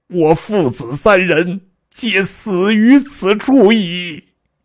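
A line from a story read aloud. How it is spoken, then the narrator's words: Wailing in shock. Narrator (Chinese): 司马懿惊得手足无措，大哭曰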